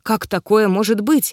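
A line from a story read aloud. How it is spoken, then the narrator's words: Stunned breathless exhale. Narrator (Russian): выдохнул ошарашенный лорд Дарк Филикайт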